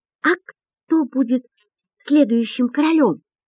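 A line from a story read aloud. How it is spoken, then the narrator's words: Timid question. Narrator (Russian): робко спрашивает Артур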